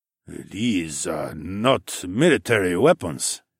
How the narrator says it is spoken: he said in a gravelly and intimidating voice

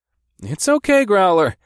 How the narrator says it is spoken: said as I tried not to laugh

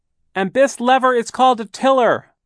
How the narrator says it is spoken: Violet shouted

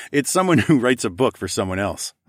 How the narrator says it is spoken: I said with a laugh

